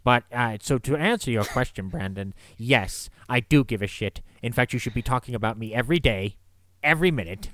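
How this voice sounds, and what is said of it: Alfred Hitchcock impression. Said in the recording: “if you keep doing this voice, I'm going to refer to you as Alfie”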